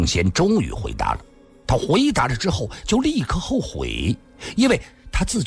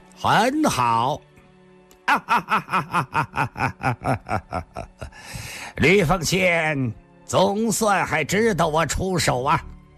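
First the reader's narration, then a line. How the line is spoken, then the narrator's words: Cold, faint smile. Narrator (Chinese): 上官金虹似乎笑了笑，冷冷地说道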